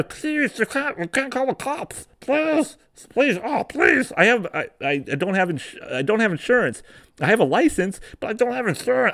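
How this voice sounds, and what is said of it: Desperate drug-user character voice, lisping. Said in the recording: “I'm trying to do my best tweaker voice. Is that a good tweaker voice?... I have a little lisp”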